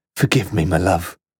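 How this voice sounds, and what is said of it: Whispered line. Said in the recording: “a final whisper”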